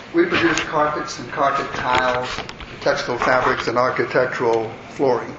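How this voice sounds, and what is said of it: Atlanta Southern accent. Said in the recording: “headquartered in Atlanta, thus the strange accent.”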